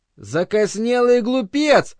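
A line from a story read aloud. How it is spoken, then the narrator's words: Shouting from a distance. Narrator (Russian): с безопасного расстояния кричал ему корреспондент фордианской науки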